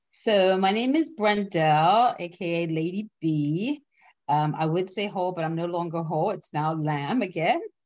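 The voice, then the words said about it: Bermudian accent. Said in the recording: “you have an accent, so I'm sure those listening will be like, oh, where is that accent from? ... we hail from the beautiful island of Bermuda”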